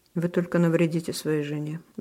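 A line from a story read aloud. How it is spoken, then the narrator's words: Sighing. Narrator (Russian): вздохнул я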